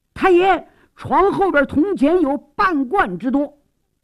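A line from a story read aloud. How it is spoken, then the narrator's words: Sudden startled shout. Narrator (Chinese): 忽然差役惊喊起来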